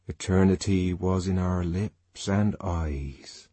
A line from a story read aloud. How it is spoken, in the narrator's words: he murmured